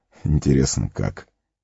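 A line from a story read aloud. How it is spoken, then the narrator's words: Tired chuckle. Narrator (Russian): устало усмехнулся Гэндальф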